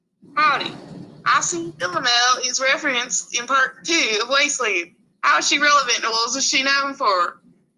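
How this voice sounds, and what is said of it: Put-on Southern accent. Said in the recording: “That howdy got me into my southern accent,”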